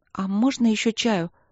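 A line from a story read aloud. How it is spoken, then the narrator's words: Timid request. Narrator (Russian): попросила она робко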